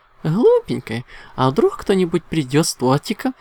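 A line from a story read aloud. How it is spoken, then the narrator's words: Playful laugh. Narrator (Russian): задорно рассмеялась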